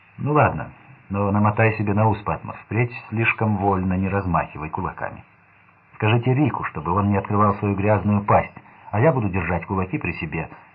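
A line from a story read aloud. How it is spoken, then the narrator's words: Plain. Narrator (Russian): сказал Рой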